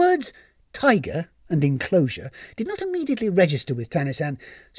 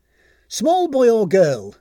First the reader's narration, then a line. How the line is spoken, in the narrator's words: called out